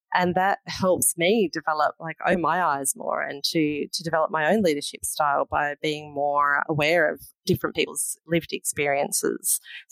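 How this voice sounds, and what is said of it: Excited, animated voice. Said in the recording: “bursting with excitement. You can probably hear it in my voice. ... I absolutely can.”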